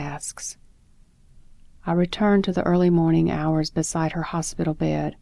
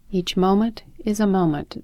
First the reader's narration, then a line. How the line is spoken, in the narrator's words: the teacher says